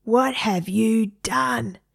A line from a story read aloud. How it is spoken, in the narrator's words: Egbert roar